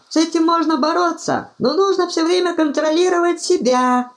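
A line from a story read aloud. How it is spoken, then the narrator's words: Squeaky voice. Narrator (Russian): пропищал арканцлер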